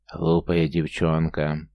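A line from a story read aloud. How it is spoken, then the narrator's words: Hoarse growl from below. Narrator (Russian): сипло прорычала снизу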